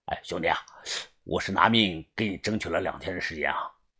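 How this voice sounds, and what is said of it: Hushed, quiet question. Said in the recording (Chinese): “小声的问我”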